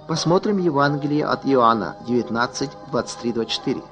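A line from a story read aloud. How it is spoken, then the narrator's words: Plain. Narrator (Russian): сказал я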